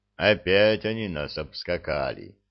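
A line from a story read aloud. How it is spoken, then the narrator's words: Sad statement. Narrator (Russian): грустно сообщил Тополь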